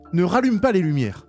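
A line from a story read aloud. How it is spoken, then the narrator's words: Shout from darkness. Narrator (French): cria une voix dans l'obscurité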